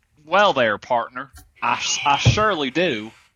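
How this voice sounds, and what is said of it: Put-on Texas cowboy drawl. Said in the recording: “your Texas cowboy drawl ... It's so good.”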